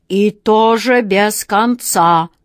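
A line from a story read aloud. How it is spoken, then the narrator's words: Imposing lion's growl. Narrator (Russian): внушительно прорычал лев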